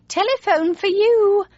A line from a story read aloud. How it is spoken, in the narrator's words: my mother called out